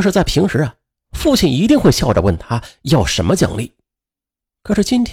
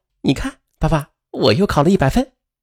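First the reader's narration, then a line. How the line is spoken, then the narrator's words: Smiling, showing off. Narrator (Chinese): 姚思笑着打断父亲的话，显摆道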